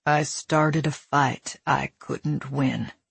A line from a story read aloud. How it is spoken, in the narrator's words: he said, his voice grave and laced with regret